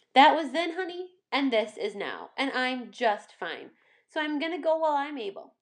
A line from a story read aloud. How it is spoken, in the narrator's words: the old woman said firmly